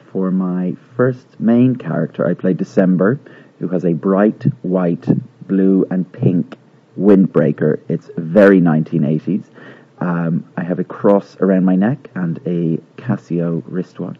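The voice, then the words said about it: Irish Dublin accent. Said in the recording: “my normal accent from Dublin”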